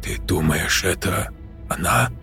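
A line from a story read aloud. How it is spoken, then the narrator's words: Girl whispering. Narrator (Russian): прошептала девушка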